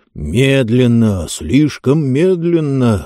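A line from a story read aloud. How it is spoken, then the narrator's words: Through gritted teeth. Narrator (Russian): сквозь зубы процедил Джонс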